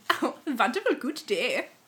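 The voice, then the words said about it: Put-on Dutch accent. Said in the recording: “Oh, a Dutch accent. I sound like the piggies.”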